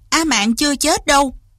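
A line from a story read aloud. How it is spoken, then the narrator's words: Loud, bitter. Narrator (Vietnamese): Lý Văn Tú trong lòng càng thêm chua xót, lớn tiếng nói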